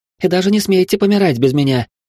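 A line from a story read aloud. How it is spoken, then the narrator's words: Cheerful declaration. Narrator (Russian): весело заявила Вилли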